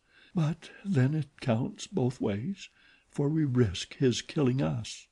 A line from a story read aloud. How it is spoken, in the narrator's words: she added in a dull voice